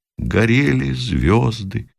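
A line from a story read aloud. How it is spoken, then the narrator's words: Quiet, sad, from trench. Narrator (Russian): Оттуда же из пехотного окопа тихо и печально раздалось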